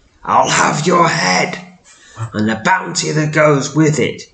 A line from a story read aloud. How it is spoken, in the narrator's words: he shrieks